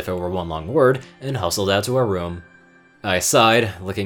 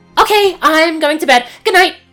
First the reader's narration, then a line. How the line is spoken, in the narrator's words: Starlight breathlessly blurting